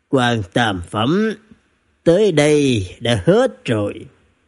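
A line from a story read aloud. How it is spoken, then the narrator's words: Gently smiling. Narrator (Vietnamese): Hạ Cứu Ca mỉm cười nhẹ nhẹ nói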